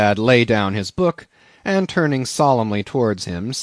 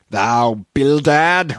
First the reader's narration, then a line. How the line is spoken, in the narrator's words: roared Peleg